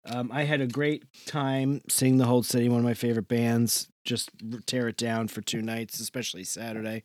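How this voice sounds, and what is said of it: Slightly hoarse voice. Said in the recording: “you might be hear, hear it in my voice. I'm a little bit uh, hoarse.”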